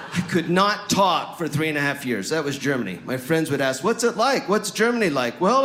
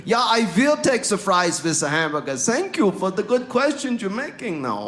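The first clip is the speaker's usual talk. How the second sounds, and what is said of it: Put-on German accent. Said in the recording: “This is a German accent. ... This is my German accent now. ... I can sound bilingual ... I use my accent to impress random strangers.”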